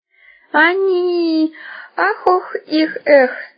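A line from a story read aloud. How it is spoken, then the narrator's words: Moaning. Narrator (Russian): застонала Верка Попугаева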